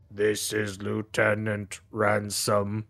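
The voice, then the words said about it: Completely monotone relayed voice. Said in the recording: “a voice that is completely monotone”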